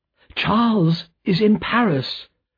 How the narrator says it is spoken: cried Lucy

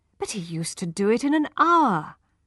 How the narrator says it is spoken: said his wife impatiently

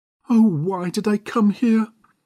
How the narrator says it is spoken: cried Agnes Resker

